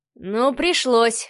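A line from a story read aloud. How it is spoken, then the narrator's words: Young man's grunt. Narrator (Russian): хмыкнул парень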